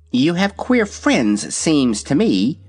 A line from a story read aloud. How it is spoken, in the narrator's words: replied the kitten in a surly tone